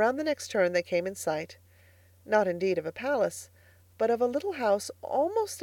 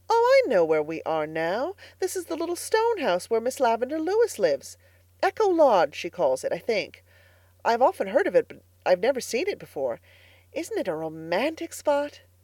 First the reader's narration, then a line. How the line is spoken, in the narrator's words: Diana exclaimed